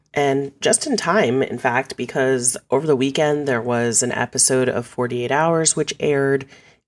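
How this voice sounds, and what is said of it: Strained voice, recovering from voice loss. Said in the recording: “I lost my voice last week, so I'm still struggling a little bit. You might sense a little change in my voice here”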